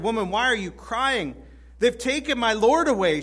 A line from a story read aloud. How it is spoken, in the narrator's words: she said